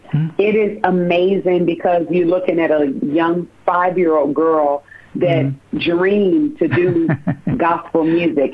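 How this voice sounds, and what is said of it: Choked-up, emotional voice. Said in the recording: “I'm getting a little choked up as I'm talking”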